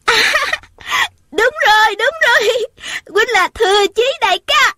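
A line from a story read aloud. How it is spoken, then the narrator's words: Overjoyed girl's cry. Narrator (Vietnamese): Thiếu nữ đó mừng quá, la lên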